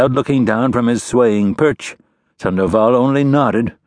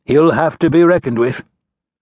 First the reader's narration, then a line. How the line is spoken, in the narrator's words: called up to Sandoval in a resolved tone